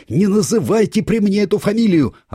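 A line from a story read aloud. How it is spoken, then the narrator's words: Yelling. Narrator (Russian): орал Копылов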